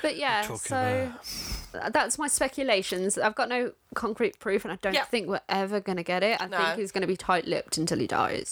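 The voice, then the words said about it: Imitates another person's voice. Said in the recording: “I'm doing my Phil Mitchell impression again because I'm tired.”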